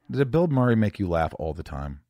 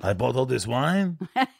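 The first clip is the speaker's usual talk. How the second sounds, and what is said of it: Put-on accent. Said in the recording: “Is that the worst accent you've ever heard? ... It wasn't that bad, actually.”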